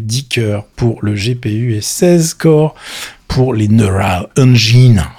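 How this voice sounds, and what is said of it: Exaggerated bad English accent. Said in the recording (French): “j'aime bien vous embêter avec mon accent. Dégueulasse.”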